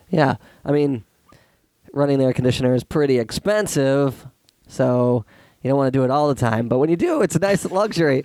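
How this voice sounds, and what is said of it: Voice sounds like a cold. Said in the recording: “my voice is horrifying ... It sounds like you have a little cold”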